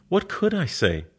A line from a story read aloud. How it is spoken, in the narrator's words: Her voice is all astonishment